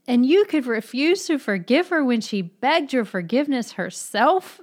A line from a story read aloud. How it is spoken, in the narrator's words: Mitya exclaimed bitterly again to Grushenka